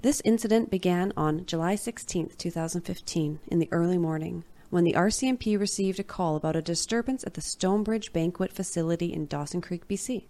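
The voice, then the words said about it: Narrating podcast voice. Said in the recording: “Let me slip into my podcast voice.”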